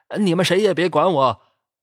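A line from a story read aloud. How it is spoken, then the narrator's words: Muffled shout. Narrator (Chinese): 捂着脸喊了声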